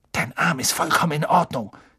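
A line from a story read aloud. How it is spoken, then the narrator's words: Hissed. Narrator (German): zischte er Malfoy zu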